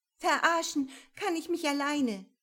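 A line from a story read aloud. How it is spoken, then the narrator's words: Called out. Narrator (German): rief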